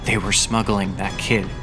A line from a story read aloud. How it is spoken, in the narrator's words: whispered